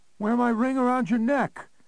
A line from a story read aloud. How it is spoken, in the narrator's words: Connie called out again from somewhere else in the maze